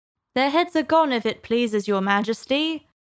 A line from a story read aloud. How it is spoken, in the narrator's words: the soldiers shouted in reply